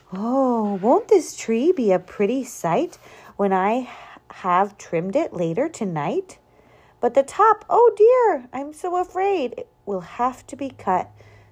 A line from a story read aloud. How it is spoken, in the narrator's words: sighed Miss Adelaide